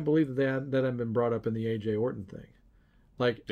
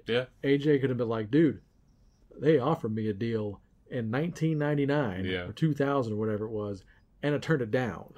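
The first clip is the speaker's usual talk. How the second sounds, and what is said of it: Imitates another person, slightly Southern. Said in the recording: “my AJ impersonation,... but I'm a little southern there”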